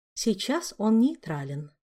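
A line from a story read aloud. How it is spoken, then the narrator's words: Quiet reply. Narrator (Russian): также тихо отозвалась она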